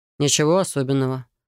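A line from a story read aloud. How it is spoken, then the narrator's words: Calm, restrained. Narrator (Russian): спокойно произнес Райт, изо всех сил сдерживаясь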